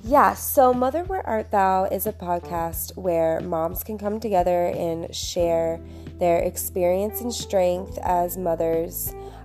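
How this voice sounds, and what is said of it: Raspy, hoarse voice. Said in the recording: “please excuse my raspy voice. I have been fighting a cold, and I sound like I've been smoking for 30 some years, and it sounds awful”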